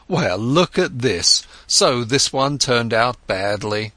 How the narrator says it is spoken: When he made losses, he laughed and said

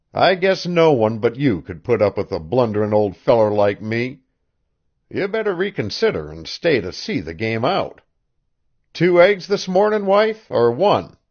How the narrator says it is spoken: he said cheerfully

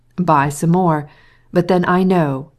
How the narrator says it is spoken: he added with a laugh

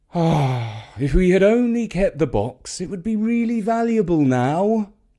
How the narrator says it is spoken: thought with a sigh

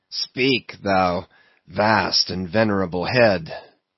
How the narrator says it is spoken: muttered Ahab

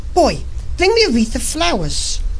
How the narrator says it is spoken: she cried to him

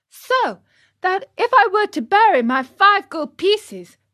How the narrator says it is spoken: cried Pinocchio with growing wonder

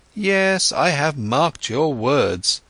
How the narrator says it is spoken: Siddhartha exclaimed

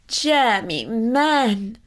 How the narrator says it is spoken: cried his mother

